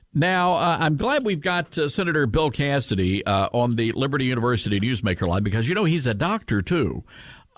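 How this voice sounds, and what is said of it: Great radio voice. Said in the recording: “you got a great radio voice. I don't know when you developed that, but it's pretty good”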